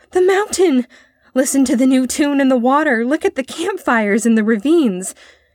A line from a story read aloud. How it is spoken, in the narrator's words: He exclaimed